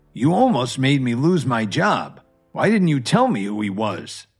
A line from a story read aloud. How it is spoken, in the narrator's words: He growled